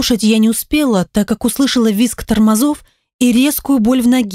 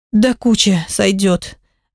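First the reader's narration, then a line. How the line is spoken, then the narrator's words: Sighing with a groan. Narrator (Russian): вздохнула я, застонав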